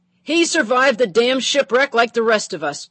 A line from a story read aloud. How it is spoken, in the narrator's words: Patty hollered